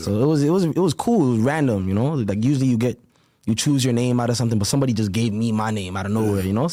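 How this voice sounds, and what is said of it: Slight Toronto Caribbean-influenced accent. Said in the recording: “you got a little accent to you, huh? ... A little bit ... It's a little different ... you got a little different lingo on you ... very heavily Caribbean influence ... The patois, the Jamaican influence”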